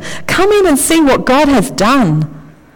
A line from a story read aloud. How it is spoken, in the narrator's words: cried Peter